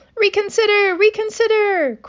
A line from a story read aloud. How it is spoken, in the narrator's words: cried the goose